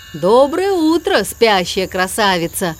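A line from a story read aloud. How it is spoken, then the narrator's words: Booming honking voice. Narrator (Russian): прогудел МакКуину желтый тягач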